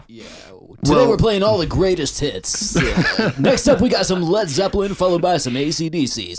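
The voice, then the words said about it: Radio DJ voice. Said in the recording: “That's your radio DJ voice, for sure. ... When I'm on the radio, this is how I talk.”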